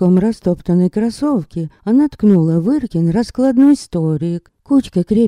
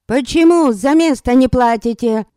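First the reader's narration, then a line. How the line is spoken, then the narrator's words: Woman's bark. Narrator (Russian): рявкнула тетеха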